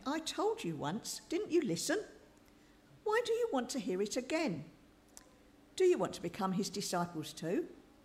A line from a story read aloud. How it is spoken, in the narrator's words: the man exclaimed